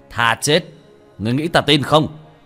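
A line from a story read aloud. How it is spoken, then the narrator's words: Scornful loud laugh. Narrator (Vietnamese): cười lớn một tiếng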